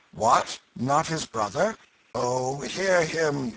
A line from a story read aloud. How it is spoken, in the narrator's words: groaned Hugo